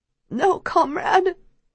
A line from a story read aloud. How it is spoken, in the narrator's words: Keem whimpers as blood drips out of his mouth